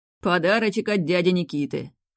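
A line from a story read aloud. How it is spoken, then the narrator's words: Snorting scoff. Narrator (Russian): хмыкнул Шахов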